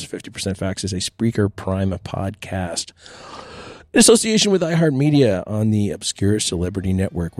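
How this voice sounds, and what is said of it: Slightly blown, strained voice. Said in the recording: “my voice is still a little blown. It's allergy season for me.”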